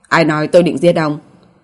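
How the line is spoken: Calm soft question. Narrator (Vietnamese): Nhưng Cố Kỳ Châu không những không tức giận mà còn nhẹ giọng hỏi lại

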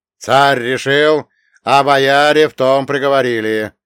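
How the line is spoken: Ringing voice. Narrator (Russian): Мстиславский и звонким голосом проговорил

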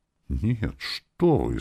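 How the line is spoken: Woman's frightened reply. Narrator (Russian): испуганно ответила женщина

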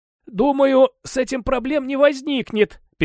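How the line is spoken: Dry parched voice. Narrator (Russian): Пересохшим голосом ответил я

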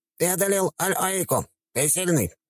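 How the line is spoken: Squeaky small-animal voice. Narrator (Russian): пропищал тушканчик

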